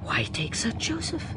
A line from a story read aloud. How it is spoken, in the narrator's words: muttered the doctor